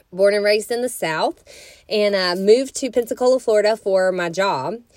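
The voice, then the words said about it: Southern US accent. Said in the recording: “I moved in to Florida from a town in Alabama, in case you couldn't tell by my accent.”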